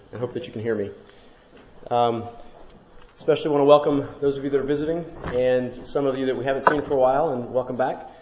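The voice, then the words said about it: Weak, failing voice. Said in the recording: “I'm losing my voice.”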